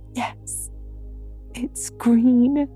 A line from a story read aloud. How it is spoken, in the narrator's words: moaned Anne